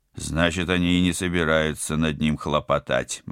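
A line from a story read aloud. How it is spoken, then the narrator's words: Gloomy speculation. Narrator (Russian): мрачно предположил Тед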